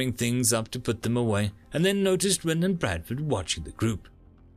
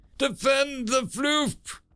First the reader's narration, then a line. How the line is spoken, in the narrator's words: Kowalski cried